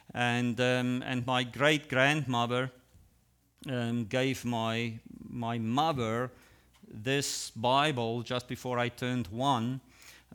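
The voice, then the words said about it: Non-native English accent. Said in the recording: “English is, of course, our second language. So that's why I sound differently ... People say you have an accent”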